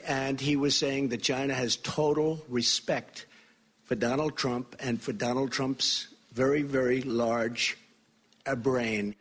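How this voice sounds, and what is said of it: Bad put-on Italian accent. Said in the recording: “a bad Italian accent? ... Super Mario”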